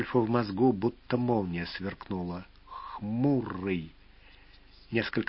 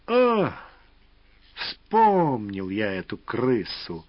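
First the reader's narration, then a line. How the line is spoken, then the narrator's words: Contemptuous, through teeth. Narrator (Russian): презрительно процедил Волк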